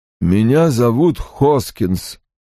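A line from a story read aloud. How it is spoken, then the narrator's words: Hollow, muffled voice. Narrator (Russian): произнес он глухо, как из бочки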